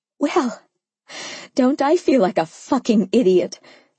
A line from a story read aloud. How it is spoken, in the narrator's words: I managed, laughing shortly